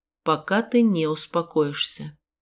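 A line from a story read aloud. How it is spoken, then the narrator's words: Calm, over screaming. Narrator (Russian): спокойно бросил он сквозь мои вопли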